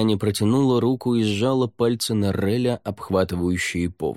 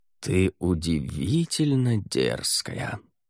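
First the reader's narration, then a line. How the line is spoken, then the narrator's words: Purring. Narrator (Russian): промурлыкал Рай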